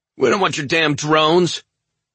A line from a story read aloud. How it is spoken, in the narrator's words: shouted a Ranger by the name of Wong